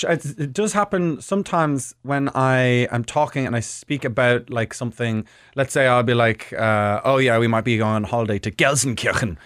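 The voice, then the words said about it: Irish accent. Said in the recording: “I just have a regular Irish accent, as you can all hear”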